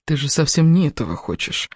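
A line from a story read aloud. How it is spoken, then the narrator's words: Whispered. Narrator (Russian): прошептал Кевин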